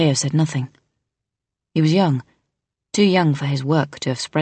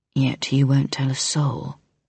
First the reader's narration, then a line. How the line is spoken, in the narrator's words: the vampire said quietly, not at all alarmed